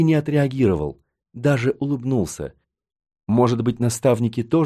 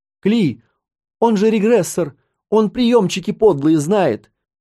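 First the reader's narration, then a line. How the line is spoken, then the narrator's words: High-pitched young man's shout. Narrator (Russian): Тонко крикнул парень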